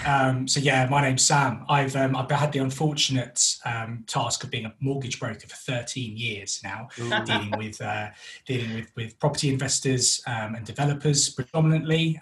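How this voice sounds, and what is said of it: North London accent. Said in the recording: “We're originally from North London, which is why I have this wonderful accent.”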